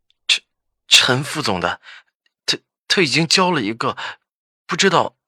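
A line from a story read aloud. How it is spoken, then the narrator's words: Unsteady voice. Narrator (Chinese): 梁涛声音不稳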